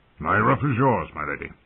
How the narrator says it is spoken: Lord Nestor returned gruffly

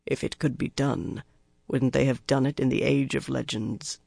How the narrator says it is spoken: Lan said quietly

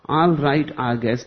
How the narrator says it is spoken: the mullah said

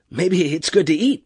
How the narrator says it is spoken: Peterson said nervously

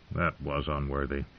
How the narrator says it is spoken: mumbled

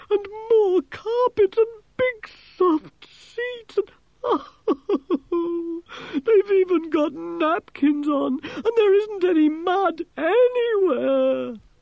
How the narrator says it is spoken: he moaned

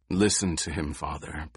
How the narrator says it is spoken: Paul said in a low voice

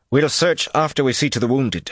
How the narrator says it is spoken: Gawain replied firmly

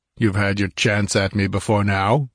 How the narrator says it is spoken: snorted Conan

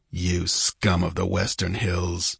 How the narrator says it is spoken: he muttered

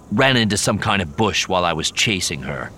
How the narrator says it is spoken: growled

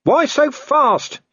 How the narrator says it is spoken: he shouted

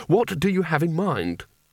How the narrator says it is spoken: he said desperately

